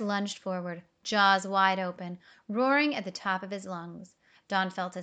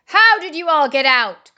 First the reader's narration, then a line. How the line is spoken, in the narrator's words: cried the crocodile